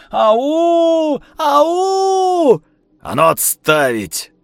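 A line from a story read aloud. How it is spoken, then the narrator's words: Stern menacing command. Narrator (Russian): грозно приказал Лисицын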